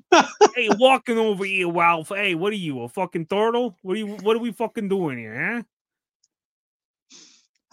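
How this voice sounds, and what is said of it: Put-on New York accent. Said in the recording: “can you say it with an actual, like, New York accent? ... You have a terrible New York accent.”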